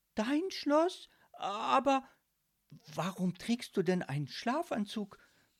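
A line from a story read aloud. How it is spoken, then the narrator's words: Irritated stammering. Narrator (German): stotterte Marie irritiert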